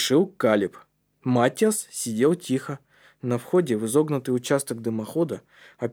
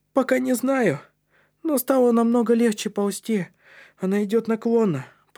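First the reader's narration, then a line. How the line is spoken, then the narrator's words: Squeaky. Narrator (Russian): пропищал Маттиас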